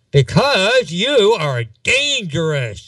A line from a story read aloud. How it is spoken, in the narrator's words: hollered a large woman, her face turning red